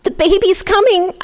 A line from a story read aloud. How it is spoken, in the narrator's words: croaked